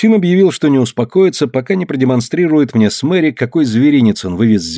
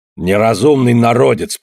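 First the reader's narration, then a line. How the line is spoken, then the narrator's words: Grumbling. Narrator (Russian): проворчал он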